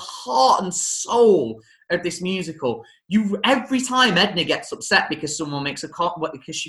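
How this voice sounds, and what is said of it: Usual voice. Nothing is said of it.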